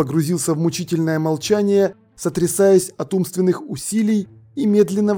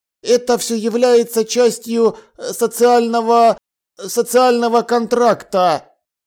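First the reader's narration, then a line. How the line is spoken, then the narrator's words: Wooden flat voice. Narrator (Russian): деревянным голосом сообщил его помощник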